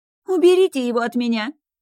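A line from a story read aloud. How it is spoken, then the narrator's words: Shrieking. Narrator (Russian): визжала Эрика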